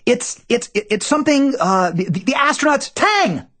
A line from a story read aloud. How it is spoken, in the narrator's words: I shriek